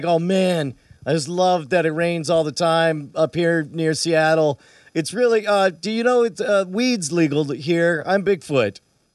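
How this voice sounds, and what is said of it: Laid-back stoner hippie character voice. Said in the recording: “what's the Yowie accent? ... Maybe the Bigfoot, he sounds a little more, maybe like he's from the hills in the south, right? Or maybe Pacific Northwest, he's probably a dope smoking hippie.”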